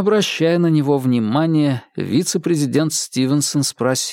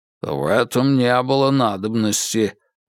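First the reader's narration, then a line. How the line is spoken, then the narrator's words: Grumble. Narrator (Russian): буркнул суперинтендант Мур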